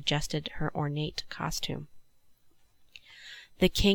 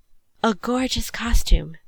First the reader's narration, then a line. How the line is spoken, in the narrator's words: Miss Owens exclaimed